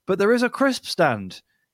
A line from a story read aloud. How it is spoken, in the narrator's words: he exclaimed